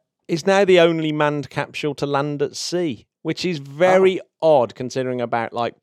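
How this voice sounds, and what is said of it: Usual voice. Nothing is said of it.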